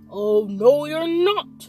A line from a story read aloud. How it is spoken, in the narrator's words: bellowed the troll